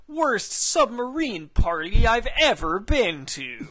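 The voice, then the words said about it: Jeff Probst impression. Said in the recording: “your Jeff Probst impression”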